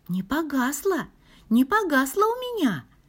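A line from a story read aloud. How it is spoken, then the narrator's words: Joyful whisper. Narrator (Russian): радостно шепчет Таня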